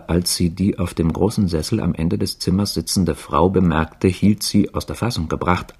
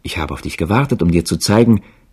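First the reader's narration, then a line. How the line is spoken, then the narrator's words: Called out. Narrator (German): rief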